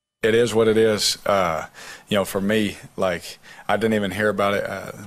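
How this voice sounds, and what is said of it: Slight Southern American accent. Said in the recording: “there's a little bit of a Southern accent.”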